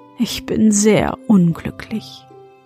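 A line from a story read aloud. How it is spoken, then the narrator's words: Sighing. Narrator (German): und sie seufzte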